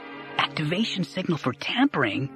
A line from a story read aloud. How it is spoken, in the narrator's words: Dara whispered